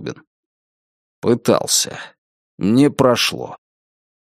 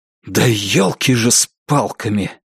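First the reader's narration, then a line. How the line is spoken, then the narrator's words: Exasperated exhale. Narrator (Russian): В сердцах выдохнул Сергей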